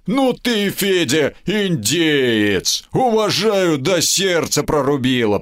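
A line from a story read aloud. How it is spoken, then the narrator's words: Deep bass voice. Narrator (Russian): пробасил Сомов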